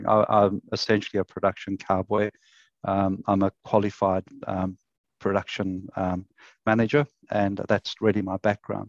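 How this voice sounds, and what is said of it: South African accent. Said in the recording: “it's not a Queensland accent, so I came from South Africa”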